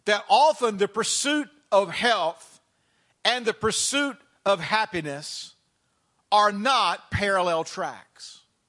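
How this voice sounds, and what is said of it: Southern American accent. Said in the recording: “I did not hone this accent living here in the DC area. It was slow cooked in the South for many years”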